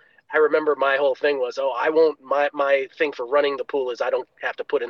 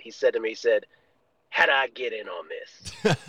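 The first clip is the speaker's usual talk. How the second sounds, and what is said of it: Imitated North Carolina accent. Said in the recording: “in his uh, North Carolina accent”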